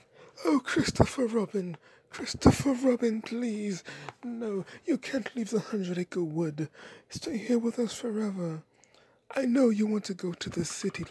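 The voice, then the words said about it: Winnie the Pooh voice impression. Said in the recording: “I'm working on a Winnie the Pooh impersonation. This is what it sounds like.”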